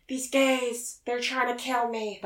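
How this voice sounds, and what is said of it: Jennifer Coolidge impression. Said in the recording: “Anything Jennifer Coolidge says... That wasn't so good”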